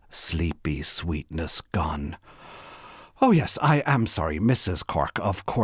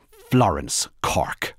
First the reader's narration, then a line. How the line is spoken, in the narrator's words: said the woman firmly